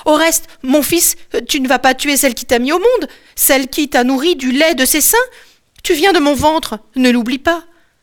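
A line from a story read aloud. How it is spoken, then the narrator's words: Crying out. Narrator (French): elle crie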